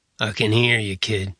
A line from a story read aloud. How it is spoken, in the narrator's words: Savitar growled